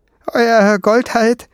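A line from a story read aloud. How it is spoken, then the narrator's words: Dwarf suddenly calling. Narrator (German): rief der Zwerg plötzlich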